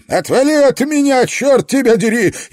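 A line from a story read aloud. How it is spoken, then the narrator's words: Frightened shout. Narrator (Russian): испуганно закричал Фредди Ло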